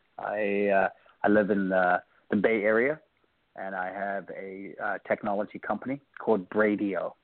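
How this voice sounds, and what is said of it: South African accent. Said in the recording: “If you can hear my accent, I grew up in a country called South Africa, Cape Town”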